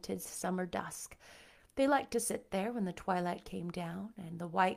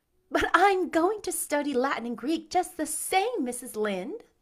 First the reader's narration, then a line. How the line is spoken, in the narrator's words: said Anne, laughing